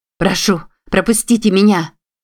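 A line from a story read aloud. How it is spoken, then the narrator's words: Shouting. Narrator (Russian): кричала Юдив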